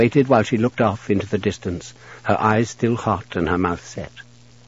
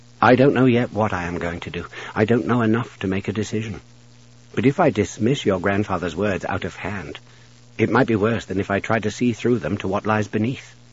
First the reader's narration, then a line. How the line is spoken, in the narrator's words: said quietly